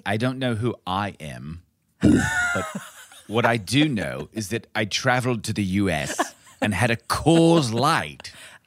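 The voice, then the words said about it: Clipped British accent, the Queen. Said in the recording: “my British accent has never been good ... It's more clipped ... like Olivia Colman as the Queen”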